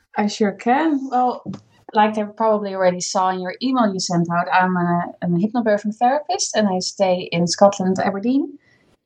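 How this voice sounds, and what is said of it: Dutch accent. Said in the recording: “hence the funny accent because I'm Dutch”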